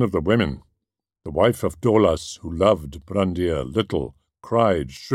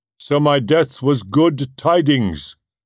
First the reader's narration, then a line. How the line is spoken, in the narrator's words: he cried